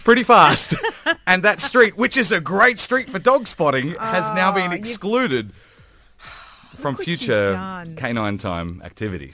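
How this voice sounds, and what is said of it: Accent making kitty sound like cutie. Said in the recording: “hello, kitty, in my accent, sounded like I said hello, cutie.”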